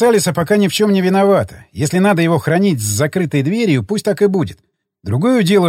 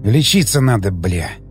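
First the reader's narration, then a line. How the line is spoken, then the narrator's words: Frightened mutter. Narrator (Russian): Пробормотал я, чувствуя, как со страху пробивает потом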